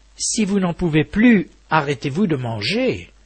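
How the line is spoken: Plain, elephant. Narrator (French): lui dit l'éléphante

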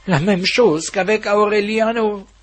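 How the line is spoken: Dazed exclamation. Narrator (French): s'exclama, comme si le monde faisait des tours sur lui-même

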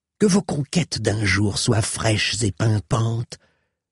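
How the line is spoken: Hissed by a woman. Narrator (French): siffla la dame

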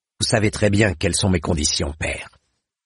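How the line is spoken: Curt young man. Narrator (French): dit sèchement le jeune homme

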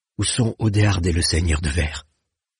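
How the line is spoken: Plain. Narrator (French): demanda-t-elle

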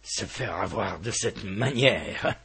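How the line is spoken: Murmured. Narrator (French): murmurait le colonel Aureliano Buendía

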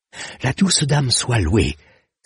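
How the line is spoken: Exclaiming. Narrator (French): s'écria-t-il

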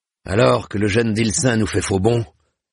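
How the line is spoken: Grumbling. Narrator (French): grommela-t-il

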